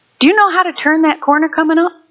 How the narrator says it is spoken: the devil from the pits of hell came up and whispered in my ear

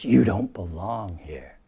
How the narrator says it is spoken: Moll hisses

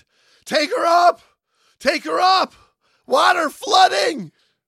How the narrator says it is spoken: the telephone talker screamed

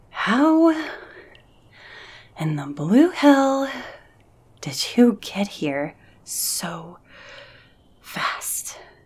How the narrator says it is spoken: Amy asked between breaths

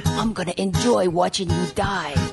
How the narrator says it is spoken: he whispered

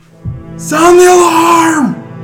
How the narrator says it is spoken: He yells

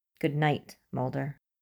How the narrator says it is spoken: says firmly

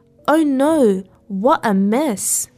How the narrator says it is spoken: she exclaimed

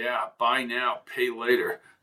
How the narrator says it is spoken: mumbled Jones

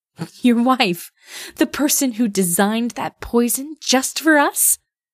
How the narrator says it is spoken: Nasuko laughed

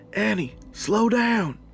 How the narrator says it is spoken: Shane yelled

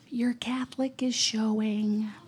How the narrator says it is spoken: she whispered

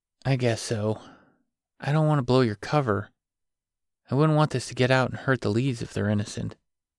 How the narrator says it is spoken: Grant explained quietly

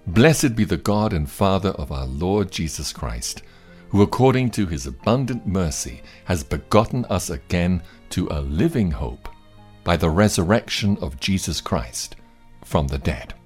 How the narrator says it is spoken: Peter exclaims

